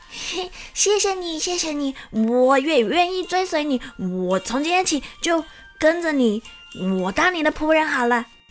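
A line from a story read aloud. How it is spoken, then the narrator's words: Happy, loud. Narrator (Chinese): 小猴子很开心的大声的告诉桃太郎说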